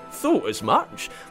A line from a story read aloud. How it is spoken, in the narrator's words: Blitzen chuckled to Comet